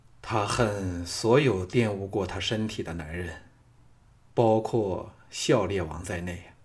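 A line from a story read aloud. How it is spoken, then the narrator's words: Dejected sigh. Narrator (Chinese): 李渊颓然叹道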